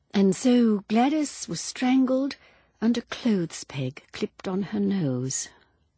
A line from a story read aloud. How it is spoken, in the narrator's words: murmured Miss Marple to herself